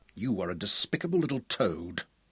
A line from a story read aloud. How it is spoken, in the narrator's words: William snarled